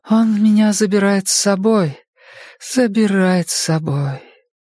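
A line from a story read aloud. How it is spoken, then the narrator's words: Sighing. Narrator (Russian): вздохнула она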